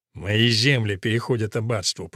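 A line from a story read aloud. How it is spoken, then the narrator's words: Grumbling. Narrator (Russian): проворчал он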